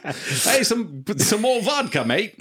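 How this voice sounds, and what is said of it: Russian accent slipping into Australian. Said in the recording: “do a Russian accent... It inevitably turns like German or some... It turns Australian”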